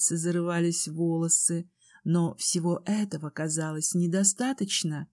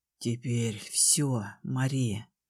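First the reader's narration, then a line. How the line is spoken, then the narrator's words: Low hoarse growling voice. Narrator (Russian): сказал низким хриплым голосом, в котором отчетливо слышалось рычание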